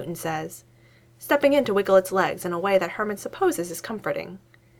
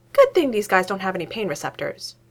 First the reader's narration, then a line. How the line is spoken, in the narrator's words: Newton says as he cheerfully stitches